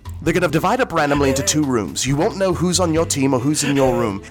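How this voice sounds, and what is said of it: Put-on accent. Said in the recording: “I'm focusing more on the accent than I am focusing on the pitch.”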